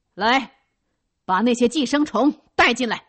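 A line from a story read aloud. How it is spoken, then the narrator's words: Loud shout from indoors. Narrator (Chinese): 那位连长在屋里大声的叫着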